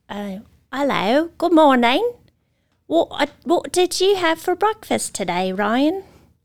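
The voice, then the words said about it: Put-on British accent. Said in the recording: “I do like to speak in accents occasionally. ... your British accent”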